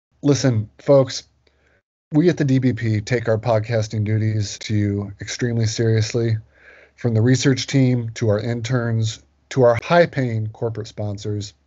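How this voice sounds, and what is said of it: Sick, congested-sounding voice. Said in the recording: “As you may be able to tell from my voice, I'm a little under the weather”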